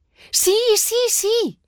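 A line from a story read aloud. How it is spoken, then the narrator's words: Shouts. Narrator (Spanish): grita Rocío corriendo hacia Juan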